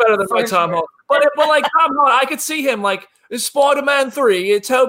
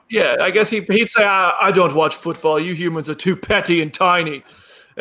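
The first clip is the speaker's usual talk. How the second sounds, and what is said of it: Thor character impression voice. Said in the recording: “My Thor impression ... That was a better impression than your Tom Holland impression.”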